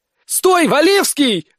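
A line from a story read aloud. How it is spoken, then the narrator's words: Yelling. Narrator (Russian): орала Карина Фарди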